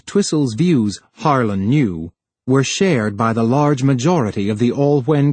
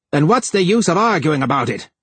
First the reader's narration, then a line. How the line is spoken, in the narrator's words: he would shout at Harlan